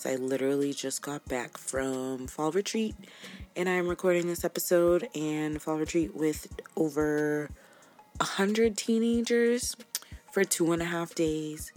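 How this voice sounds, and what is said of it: Tired, worn-out voice. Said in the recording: “excuse my voice ... I am exhausted”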